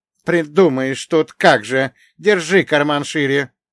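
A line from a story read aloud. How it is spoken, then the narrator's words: Displeased grumble. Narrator (Russian): недовольно буркнул Бажен Вячеславович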